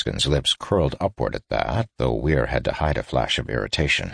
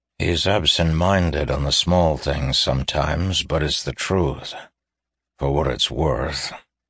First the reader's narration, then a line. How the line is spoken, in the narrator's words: Tayrus added, a touch dryly